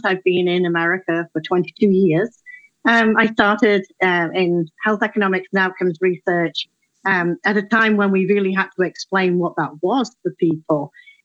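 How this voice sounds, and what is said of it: European accent. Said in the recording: “start in Europe, because as you possibly guessed from the accent ... I'm a transplant”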